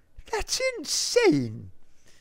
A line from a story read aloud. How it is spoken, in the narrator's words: Greta cried